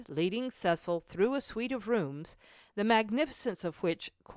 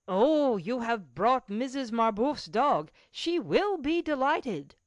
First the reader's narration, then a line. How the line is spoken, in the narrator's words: A liveried footman exclaimed, like the doorkeeper